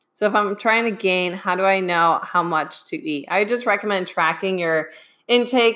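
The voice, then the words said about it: Strained, fading voice. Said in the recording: “losing my voice again, still getting over this sinus infection”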